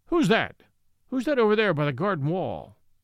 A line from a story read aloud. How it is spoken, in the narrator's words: the unnerved Galloway called out sharply